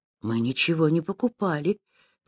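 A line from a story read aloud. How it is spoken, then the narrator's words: Quiet. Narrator (Russian): тихо сказал Кирюшка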